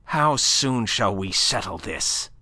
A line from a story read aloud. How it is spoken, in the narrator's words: snapped Chabrienne, livid with real fury